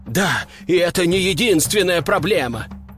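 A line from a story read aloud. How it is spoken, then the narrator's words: Sighing, running rhinoceros. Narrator (Russian): вздохнул бегущий позади носорог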